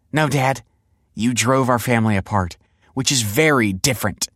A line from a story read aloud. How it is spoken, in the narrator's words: snapped Olive